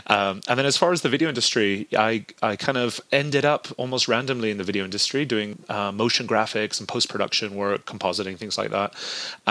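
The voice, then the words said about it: Hard-to-place mixed British-American accent. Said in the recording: “a lot of you are going to have a hard time placing my accent ... I grew up in southern Spain and I went to a British school growing up. My mother's American. I've lived in America now almost 20 years ... this kind of bastardized accent”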